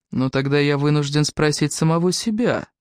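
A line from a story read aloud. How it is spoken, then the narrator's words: Ingratiating, insinuating. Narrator (Russian): вкрадчиво продолжал Фрэнк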